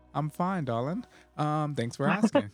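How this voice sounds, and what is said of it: Put-on British accent. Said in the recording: “I felt like I had to say that in a British accent. I mimic the British accent a lot”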